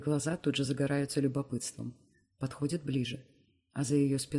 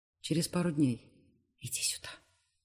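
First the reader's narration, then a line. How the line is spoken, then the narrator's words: Whispered call. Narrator (Russian): шепотом зову Анаит к себе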